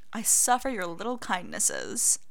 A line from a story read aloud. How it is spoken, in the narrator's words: Severus drawls